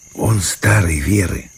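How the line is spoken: Whispered reply, two voices. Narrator (Russian): ответили шепотом Степка и Вася

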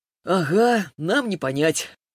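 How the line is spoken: Chuckling reply. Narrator (Russian): хохотнул он в ответ

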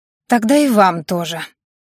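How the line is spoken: Angry female reply. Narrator (Russian): зло ответила девушка

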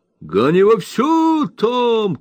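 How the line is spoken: Master's shout. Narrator (Russian): крикнул хозяин

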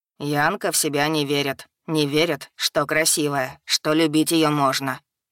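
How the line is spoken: Serious, stern. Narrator (Russian): серьёзно и строго отметил Фагард

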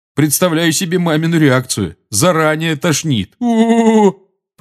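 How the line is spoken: Groaned. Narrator (Russian): простонал Джордж

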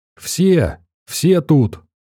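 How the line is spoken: Hysterical trembling shout. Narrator (Russian): Дрожащий тип истерично выкрикнул

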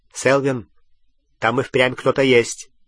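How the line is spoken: Sharp tone. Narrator (Russian): резким тоном произнес второй волшебник

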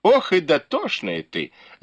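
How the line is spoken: Laughing. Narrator (Russian): засмеялась Фэнзе

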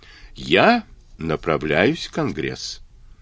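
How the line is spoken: Slow Kentucky drawl. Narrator (Russian): сказал тягучим кентуккским говором

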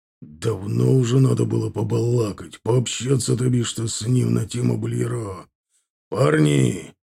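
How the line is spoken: Hoarse, foggy voice. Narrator (Russian): прозвучал хриплый туманный голос

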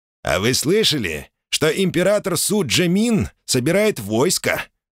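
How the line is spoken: Plain townsman. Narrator (Russian): говорит один горожанин

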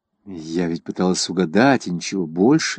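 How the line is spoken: Plain. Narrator (Russian): сказала Селена

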